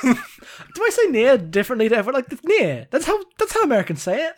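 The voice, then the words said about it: British accent. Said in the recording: “making fun of your Britishness ... I've got my accent ... You British R's are a whole thing.”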